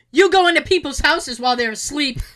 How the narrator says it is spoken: my son suddenly shouted

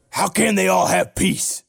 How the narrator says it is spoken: He hissed

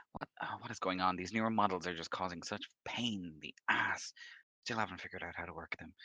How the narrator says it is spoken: she like just goes around and starts like mumbling to herself

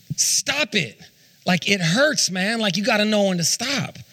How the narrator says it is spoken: just whines and he's crying, and he screams at Aiden

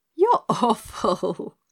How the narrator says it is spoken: laughed Dorothy

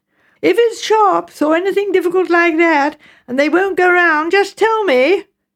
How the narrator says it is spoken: shouted Megan

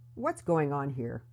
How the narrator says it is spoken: He asked, his voice firm and authoritative

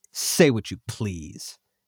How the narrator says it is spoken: he said coldly

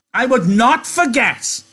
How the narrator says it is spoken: Lenny said loudly

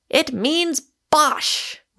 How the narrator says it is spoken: roared Michael

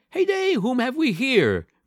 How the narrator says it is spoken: cried he

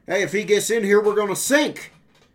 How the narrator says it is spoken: shouted

